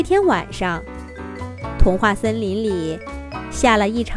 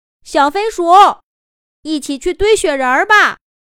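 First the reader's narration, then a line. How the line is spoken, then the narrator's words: Calling out. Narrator (Chinese): 就在树下喊道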